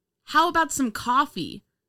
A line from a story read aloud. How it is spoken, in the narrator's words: one of the men yelled